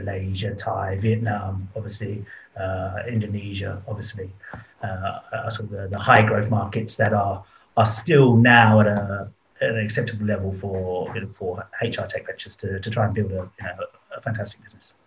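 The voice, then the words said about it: British London accent. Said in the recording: “your accent is British, yes? ... Correct ... I am from London originally ... Southeast London, a place called Beckenham”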